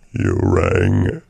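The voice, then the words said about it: Lurch impression, sounds like a cold. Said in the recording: “I used to do a Killer Lurch impression... That's Lurch after he's been on a bender... that Lurch sounds like he's got a cold or the flu... emphysema”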